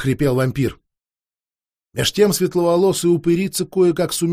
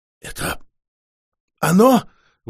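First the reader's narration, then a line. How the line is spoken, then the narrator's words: Strained forced words. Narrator (Russian): выдавила вампирша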